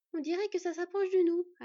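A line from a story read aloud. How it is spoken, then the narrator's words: Panting. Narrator (French): haleta Skad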